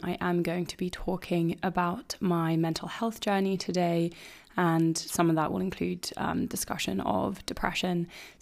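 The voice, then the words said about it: Weak, husky, slightly ill voice. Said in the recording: “my voice isn't distractingly bad. I'm starting to get a little bit ill, and also just don't have so much power in my voice ... my voice is a little bit shot ... a little bit of husky intrigue”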